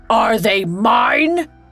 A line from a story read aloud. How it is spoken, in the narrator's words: He bellowed